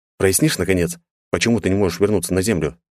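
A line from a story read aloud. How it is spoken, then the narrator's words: Plain. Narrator (Russian): спросил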